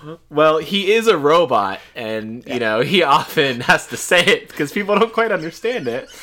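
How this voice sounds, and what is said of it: Usual voice. Nothing is said of it.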